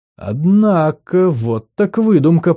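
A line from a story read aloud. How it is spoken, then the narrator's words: Drawl. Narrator (Russian): протянула Фергия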